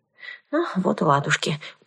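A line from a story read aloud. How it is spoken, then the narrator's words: Muttering. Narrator (Russian): пробормотала я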